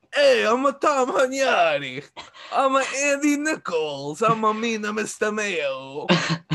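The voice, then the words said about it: Sopranos-style mobster voice. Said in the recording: “Every time I try and do an impression of one of those guys, it always sounds like a character from The Sopranos.”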